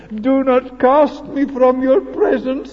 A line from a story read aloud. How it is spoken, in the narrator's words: he cried